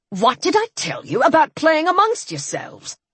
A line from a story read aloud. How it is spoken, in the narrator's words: He snapped